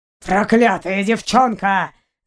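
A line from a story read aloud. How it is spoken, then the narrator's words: Angry growl. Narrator (Russian): зарычал ее похититель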